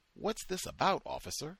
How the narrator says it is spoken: Geronimo asked

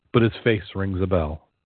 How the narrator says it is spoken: the bishop said sadly

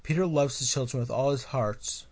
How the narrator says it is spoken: Kairi pleaded

